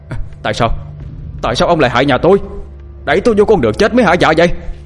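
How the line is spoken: Screaming. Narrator (Vietnamese): Kiên gào lên

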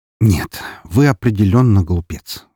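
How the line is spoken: Sighing. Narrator (Russian): вздохнул я

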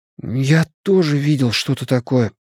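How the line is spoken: Sudden flat, hoarse, frightened voice. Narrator (Russian): внезапно признался Бен Хэнском ровным, хриплым, испуганным голосом

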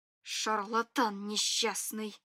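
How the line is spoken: Grumbling mutter. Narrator (Russian): пробурчала я

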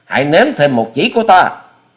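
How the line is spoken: Shout. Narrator (Vietnamese): quát thêm

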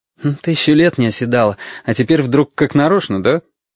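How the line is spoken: Cheerful, mocking. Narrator (Russian): Очень бодро и насмешливо отозвался Витька

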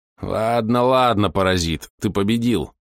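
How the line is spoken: Unpleasant-voiced shooter. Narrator (Russian): неприятным голосом заговорил стрелок

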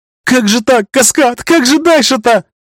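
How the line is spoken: Sobbing lament. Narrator (Russian): Причитая сквозь всхлипы, произнесла девушка

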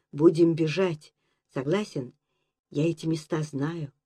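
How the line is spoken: Unhesitating whisper. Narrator (Russian): без раздуманной опаски, шепотом сказал

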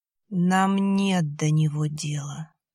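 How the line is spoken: Plain. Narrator (Russian): сказали существа

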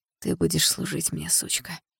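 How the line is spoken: Barely audible whisper. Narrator (Russian): Он еле слышно шепчет

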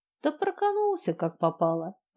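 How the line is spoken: Cheerful young man. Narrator (Russian): парень весело

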